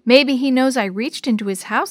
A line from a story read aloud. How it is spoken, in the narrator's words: Sammy said